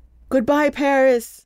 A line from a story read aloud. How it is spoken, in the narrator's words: he shouted into the boy's ear